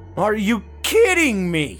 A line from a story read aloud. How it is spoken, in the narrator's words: Matt yelled